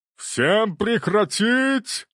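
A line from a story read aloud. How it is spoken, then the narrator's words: Magically amplified roar. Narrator (Russian): проревел он, и его голос, усиленный магией, разнесся по всему залу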